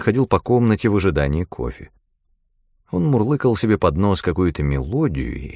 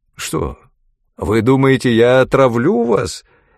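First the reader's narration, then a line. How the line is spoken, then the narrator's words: Cheerful exclamation. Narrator (Russian): весело воскликнул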